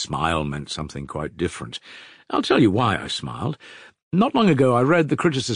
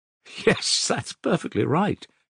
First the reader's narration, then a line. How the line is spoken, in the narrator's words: Kolya laughed suddenly